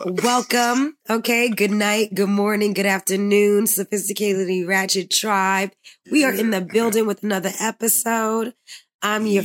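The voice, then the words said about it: Raspy voice. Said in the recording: “Dang, I'm raspy.”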